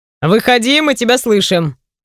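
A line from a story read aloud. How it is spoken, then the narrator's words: Man shouting. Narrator (Russian): кричит мой муж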